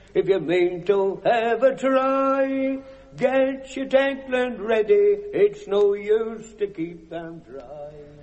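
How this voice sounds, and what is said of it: Singing with a Norfolk accent. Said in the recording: “Is that Norfolk? ... Norfolk accent, Norfolk dialect.”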